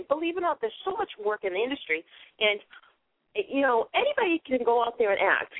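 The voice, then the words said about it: Boston accent. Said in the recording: “having my Boston accent actually got me a couple of parts in films”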